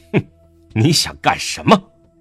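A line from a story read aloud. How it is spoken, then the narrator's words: Furious mocking laugh. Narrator (Chinese): 他怒极反笑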